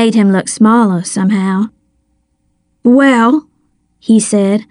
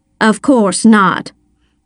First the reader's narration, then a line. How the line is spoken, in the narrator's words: she snapped